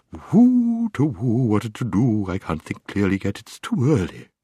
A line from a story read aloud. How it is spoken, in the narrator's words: The bird muttering to itself